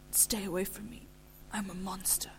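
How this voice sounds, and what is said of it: Hoarse, strained voice. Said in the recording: “he said hoarsely.”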